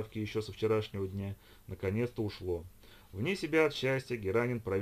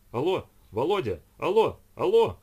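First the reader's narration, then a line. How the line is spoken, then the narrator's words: Father shouting. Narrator (Russian): кричал отец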